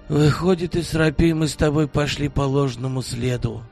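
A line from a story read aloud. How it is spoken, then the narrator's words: Heavy sigh, elderly man. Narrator (Russian): тяжко вздохнул пожилой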